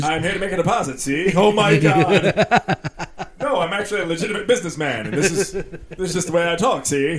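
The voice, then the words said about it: Old-time 1940s gangster movie accent. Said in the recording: “everybody talks like I'm talking right now... A newsreel man... criminals were like, yeah, Shay... His accent... that fucking accent... sound like Little yeah. Caesar”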